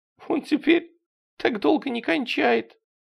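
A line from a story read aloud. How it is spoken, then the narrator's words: Sobbing. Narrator (Russian): Она еще раз всхлипнула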